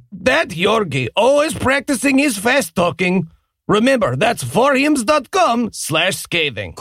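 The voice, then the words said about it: Put-on Eastern European accent. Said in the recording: “Are these accents problematic? ... No, they are coded Eastern European.”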